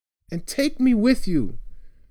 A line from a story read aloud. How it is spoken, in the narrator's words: said, feeling his voice shake